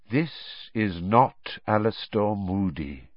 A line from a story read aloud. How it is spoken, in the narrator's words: said Dumbledore quietly